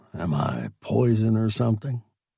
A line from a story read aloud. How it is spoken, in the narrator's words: Somebody said it then in a stage whisper